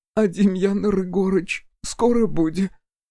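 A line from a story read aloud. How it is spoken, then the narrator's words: Sobbing question. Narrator (Russian): всхлипнув, спросила Нина Павловна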